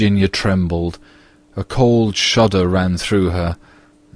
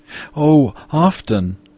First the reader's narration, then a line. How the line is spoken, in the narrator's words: cried the little girl